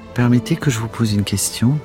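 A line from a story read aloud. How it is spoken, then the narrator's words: Plain. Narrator (French): dit alors Clarisse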